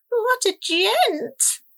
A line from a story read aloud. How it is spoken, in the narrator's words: Rosalba croaked, her neck flushing scarlet